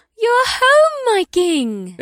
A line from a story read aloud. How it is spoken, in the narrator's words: Ibsith said in a cheery voice